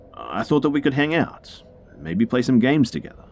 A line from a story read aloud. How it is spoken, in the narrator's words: he quickly followed up with